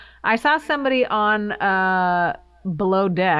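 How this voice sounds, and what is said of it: Usual voice. Nothing is said of it.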